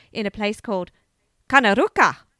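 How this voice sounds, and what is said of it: Put-on Italian accent. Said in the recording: “I don't know why I said that in Italian accent”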